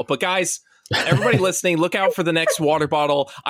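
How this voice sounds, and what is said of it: Joking, ranting voice. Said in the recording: “I'm ranting in my joking voice, but I'm serious about this.”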